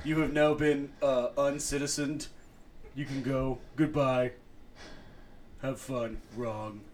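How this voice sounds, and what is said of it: Imitates another person's voice. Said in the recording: “my Trump impression ... I can just do the wrong ... He's like a Futurama character”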